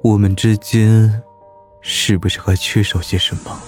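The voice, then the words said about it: Soft, quiet, suggestive voice. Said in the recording (Chinese): “小声且暧昧的问道”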